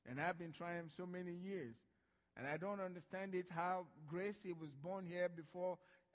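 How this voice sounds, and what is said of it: African-accented English. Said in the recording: “I was born an African... I've tried to change my accent. It don't work.”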